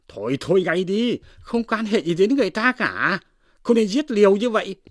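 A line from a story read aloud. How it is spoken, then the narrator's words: Sharp shout. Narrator (Vietnamese): Chú Phú quát lên rằng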